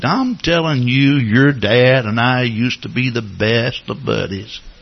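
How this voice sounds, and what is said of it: Texas drawl. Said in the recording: “he's got this Texas drawl”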